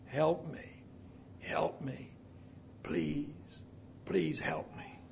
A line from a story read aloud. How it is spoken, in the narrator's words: he hoarsely whispered